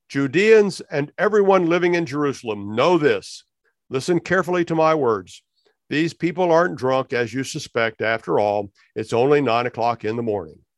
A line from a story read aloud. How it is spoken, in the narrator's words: He raised his voice and declared